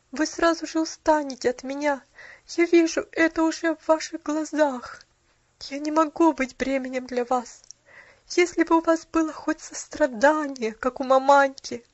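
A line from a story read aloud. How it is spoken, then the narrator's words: Suppressed sob. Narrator (Russian): подавил всхлипывание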